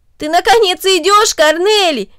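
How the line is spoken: Exclaimed. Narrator (Russian): воскликнул Дино

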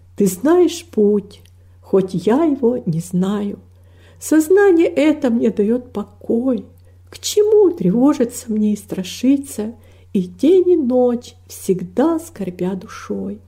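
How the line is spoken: Soft singing. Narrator (Russian): она тихо запела

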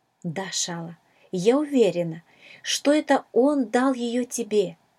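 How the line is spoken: Plain. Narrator (Russian): ответила мисс Агнес

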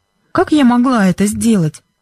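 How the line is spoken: Innocent-voiced question. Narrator (Russian): невинным голосом спросила Бренда

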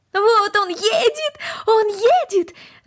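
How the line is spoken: Excited shout. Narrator (Russian): закричала Корнели

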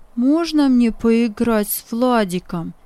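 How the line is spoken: Plain. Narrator (Russian): спросил он

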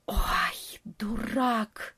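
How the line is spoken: Hissed under breath. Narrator (Russian): прошипел в полголоса летучая мышь

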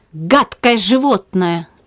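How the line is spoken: Irritated outcry. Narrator (Russian): раздраженно вскричала Циска

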